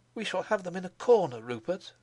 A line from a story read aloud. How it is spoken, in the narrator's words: he cried